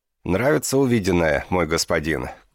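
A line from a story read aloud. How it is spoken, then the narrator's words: Shouting. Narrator (Russian): крикнула Сатьябхама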